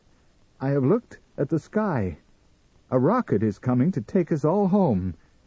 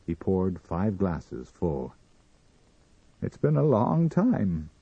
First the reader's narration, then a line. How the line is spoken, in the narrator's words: he said, gravely